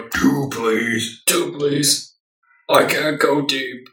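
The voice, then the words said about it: Deliberately lowered deep voice. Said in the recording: “I like to imagine your voice is a lot like lower. ... That's voice. Just like how I imagine it.”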